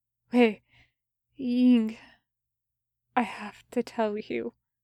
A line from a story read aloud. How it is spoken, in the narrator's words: he gasped, choking on blood welling in his mouth